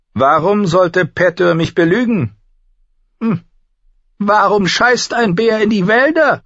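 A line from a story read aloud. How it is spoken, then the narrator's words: Calling out. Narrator (German): rief er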